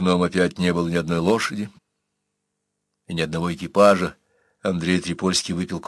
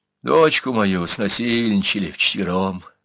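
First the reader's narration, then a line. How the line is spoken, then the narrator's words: Sad. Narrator (Russian): сказал печально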